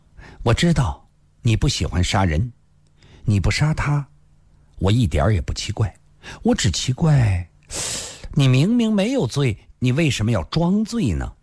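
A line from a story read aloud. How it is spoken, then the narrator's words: Sudden laugh. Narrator (Chinese): 孙小红也突然笑了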